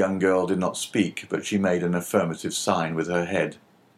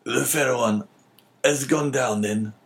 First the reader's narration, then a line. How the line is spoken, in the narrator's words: said Morrell in a hoarse voice